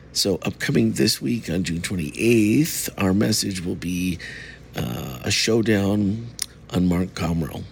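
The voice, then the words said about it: Voice sounds sick, not fully recovered. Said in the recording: “As you can still hear by my voice, I am still not 100%”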